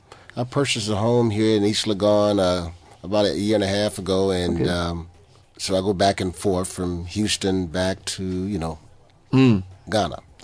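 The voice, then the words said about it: Southern US accent. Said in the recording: “you sound like you have a southern accent from some part of the U.S.”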